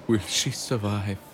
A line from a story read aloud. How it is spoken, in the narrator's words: Gino sighed deeply through his nose